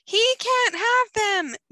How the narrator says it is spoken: Jennifer screams

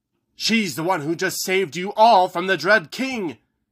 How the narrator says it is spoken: Haggerty shouted

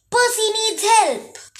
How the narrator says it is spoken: Tyson yelling

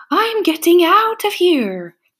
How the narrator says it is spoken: cried

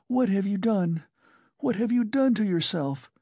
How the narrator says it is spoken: she said in despair

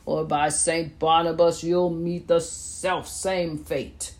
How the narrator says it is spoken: he bellowed

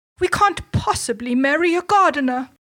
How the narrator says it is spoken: they cried

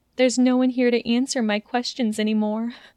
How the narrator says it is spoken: said in a broken voice, swallowing down a sob

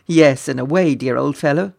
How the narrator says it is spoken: laughed the prince

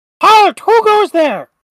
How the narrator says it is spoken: With a high-pitched voice, it shrieks

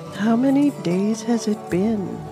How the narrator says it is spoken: Fiona said sleepily

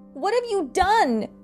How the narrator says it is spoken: Catherine shrieked

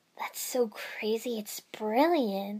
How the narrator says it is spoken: I breathed

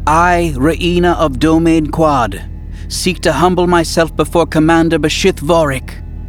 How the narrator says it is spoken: she said loudly and clearly in the Yuuzhan Vong language

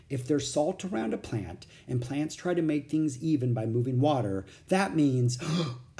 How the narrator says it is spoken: I gasped

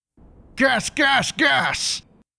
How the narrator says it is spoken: After looking at me with a subtle grin, he shouted

